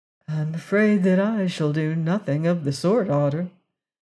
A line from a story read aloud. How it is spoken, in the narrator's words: answered Leonard sadly